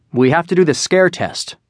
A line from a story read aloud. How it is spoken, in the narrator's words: I said